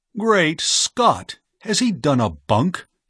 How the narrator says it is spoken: he cried

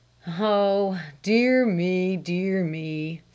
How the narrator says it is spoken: sighed her father

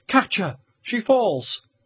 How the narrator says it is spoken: Ursula cried out in a sharp, shrill voice

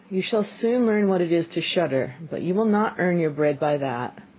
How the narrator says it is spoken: The father sighed and answered him

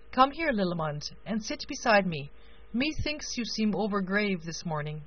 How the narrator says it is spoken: the king continued kindly

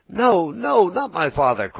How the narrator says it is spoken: cried Pinocchio, wild with terror, but as he screamed, the gold pieces tinkled together in his mouth

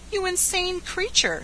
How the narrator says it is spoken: she cried

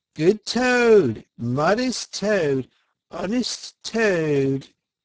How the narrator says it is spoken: shrieks of merriment

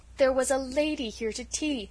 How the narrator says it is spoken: said Felicity miserably

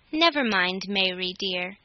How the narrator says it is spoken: he said

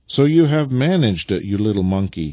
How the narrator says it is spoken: he exclaimed as he caught sight of his little boy

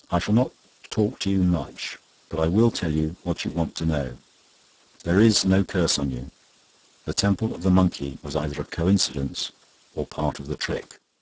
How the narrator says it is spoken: said quietly

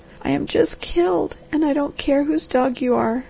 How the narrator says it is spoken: sobbed the girl

